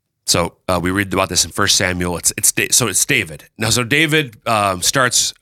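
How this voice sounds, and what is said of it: Usual voice. Nothing is said of it.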